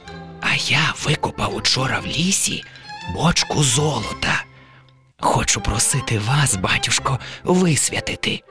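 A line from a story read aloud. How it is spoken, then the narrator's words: Poor man whispering in ear. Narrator (Ukrainian): Убогий нахиливсь до вуха батюсці та й каже пошепки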